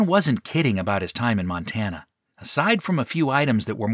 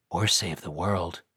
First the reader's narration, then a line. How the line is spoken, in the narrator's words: Brad muttered